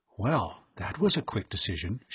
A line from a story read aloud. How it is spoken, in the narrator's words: she whispered